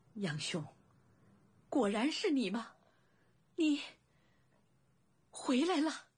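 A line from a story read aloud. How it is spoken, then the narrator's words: Trembling voice. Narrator (Chinese): 颤声道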